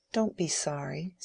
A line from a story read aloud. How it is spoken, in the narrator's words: said Dorothea, in her clear, tender tones